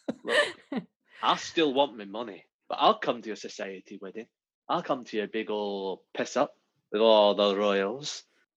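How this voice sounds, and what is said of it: Put-on character accent. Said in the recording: “My accent's gone a bit there. Don't worry. Don't worry. It's back now.”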